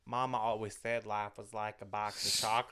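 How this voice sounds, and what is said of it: Attempted Forrest Gump impression. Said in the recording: “I can't even do a Forrest Gump accent.”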